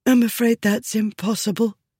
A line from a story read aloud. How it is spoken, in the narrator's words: she said, sniffing softly